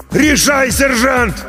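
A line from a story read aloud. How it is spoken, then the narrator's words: Shouting right at ear. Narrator (Russian): Прямо над ухом заорал артиллерист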